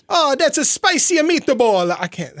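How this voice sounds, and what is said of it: Put-on Italian accent. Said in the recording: “Do your Italian accent, please.”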